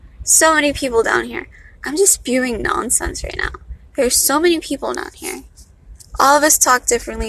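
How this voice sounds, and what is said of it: Valley girl accent. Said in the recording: “I sound like a valley girl. Apparently that's the sound of education.”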